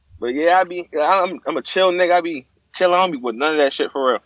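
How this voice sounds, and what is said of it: Baltimore accent. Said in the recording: “I don't care what they say about your accent, bro. I fuck with it. A nigga really from around there”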